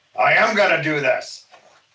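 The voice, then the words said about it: Imitates another person's voice. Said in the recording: “in his voice, that's people say I can imitate him well... It's a very good impression.”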